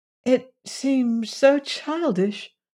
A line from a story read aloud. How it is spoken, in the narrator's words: faltered Valancy